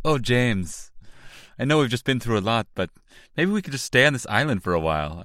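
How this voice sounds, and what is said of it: Unidentified put-on movie accent. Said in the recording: “I don't know what that accent is.”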